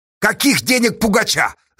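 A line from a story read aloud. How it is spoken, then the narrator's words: Yelling. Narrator (Russian): заорал Асташа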